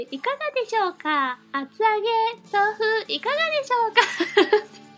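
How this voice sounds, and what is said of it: Child's voice, vendor's sales call. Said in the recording (Japanese): “お子供の声で”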